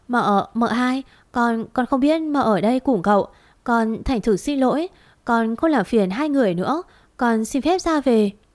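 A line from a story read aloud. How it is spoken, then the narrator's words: Timid, frightened stammer. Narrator (Vietnamese): Vẫn điều bộ ngây thơ, sợ hãi đó, cô ta cúi đầu xuống lắp bắp nói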